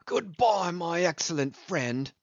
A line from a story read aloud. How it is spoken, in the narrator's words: said jeeringly